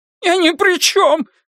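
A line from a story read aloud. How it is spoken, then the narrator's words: Squeak. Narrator (Russian): пискнул Эванс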